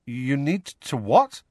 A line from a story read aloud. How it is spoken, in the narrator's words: said Harry, nervously